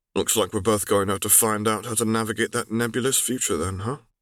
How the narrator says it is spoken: Zev muttered

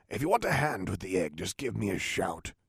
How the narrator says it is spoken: he whispered

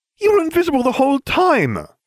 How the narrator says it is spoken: Hermione cried

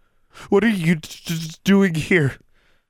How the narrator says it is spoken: she stammered, teeth chattering

